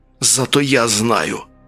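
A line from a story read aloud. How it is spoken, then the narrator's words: Cloak's hiss. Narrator (Russian): прошипел плащ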